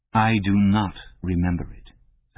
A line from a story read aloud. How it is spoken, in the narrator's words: said O'Brien